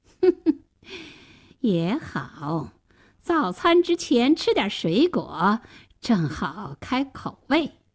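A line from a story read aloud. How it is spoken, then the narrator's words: Sly sneer. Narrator (Chinese): 大灰狼冷笑了一声说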